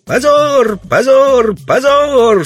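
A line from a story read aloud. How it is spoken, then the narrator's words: Passionate children shouting. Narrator (Russian): со страстью закричали детишки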